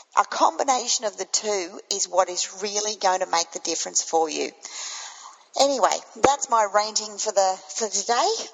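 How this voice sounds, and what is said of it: Croaky voice from a cold. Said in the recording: “I've got a little bit of a cold today, so I'm a little bit croaky.”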